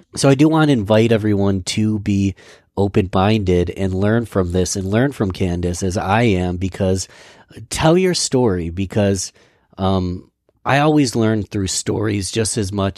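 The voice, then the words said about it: Hoarse, strained voice. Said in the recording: “I'm losing my voice today”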